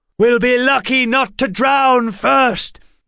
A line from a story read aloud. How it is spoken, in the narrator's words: Waylon shouted back